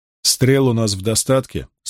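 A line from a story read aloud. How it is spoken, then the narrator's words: Plain. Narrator (Russian): спросил Перрин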